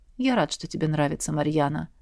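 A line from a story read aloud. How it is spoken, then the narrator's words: Soft warm dragon voice. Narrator (Russian): мягко сказал дракон и улыбнулся, тепло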